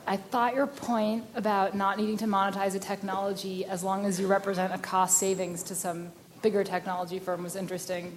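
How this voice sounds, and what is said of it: Slightly hoarse, fading voice. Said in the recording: “I'm losing my voice a little today”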